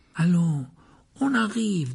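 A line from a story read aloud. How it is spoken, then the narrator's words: Coaxing. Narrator (French): dit Ron d'un ton cajoleur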